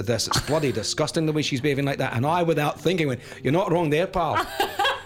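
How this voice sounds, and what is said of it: Put-on Scottish accent. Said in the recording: “talking in a Scottish accent ... doing the accent to the people whose accent”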